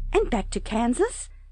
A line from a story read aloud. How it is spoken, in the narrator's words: asked eagerly